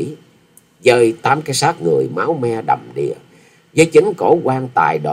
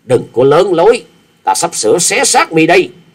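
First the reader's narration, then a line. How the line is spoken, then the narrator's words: Shout. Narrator (Vietnamese): tiếng hét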